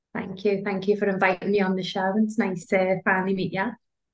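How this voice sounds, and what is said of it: English Liverpool accent. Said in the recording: “I just love the English accent. You're from Liverpool, aren't you? ... It is so divine. ... We love the English accent.”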